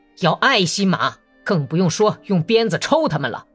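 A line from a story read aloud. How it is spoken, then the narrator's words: Sudden angry shout. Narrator (Chinese): 突然又无缘无故地发起脾气，大声喊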